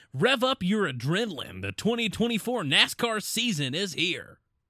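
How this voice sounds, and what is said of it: Disney Channel announcer voice. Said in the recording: “That was a very interesting voice. ... 2008 Disney Channel announcer voice.”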